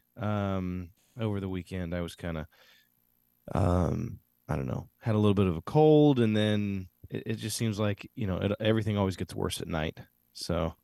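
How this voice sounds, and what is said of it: Slightly raspy, sick-sounding voice. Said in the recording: “Your voice sounds like you're a little bit sick ... still a little raspy”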